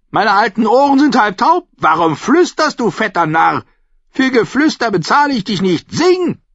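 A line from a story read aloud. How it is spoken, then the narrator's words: Shouted. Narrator (German): schrie die Dornenkönigin Butterstampfer zu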